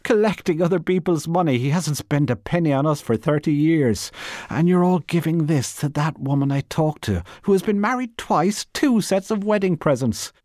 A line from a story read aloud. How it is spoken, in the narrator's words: cried